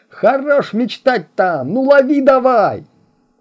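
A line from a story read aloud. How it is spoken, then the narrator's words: Yelling. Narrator (Russian): вопил Мика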